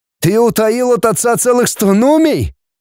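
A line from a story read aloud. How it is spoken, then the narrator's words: Exclaimed. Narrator (Russian): воскликнул братец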